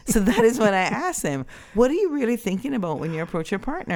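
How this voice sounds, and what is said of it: Usual voice. Nothing is said of it.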